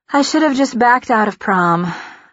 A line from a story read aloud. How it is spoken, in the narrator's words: I sigh into my webcam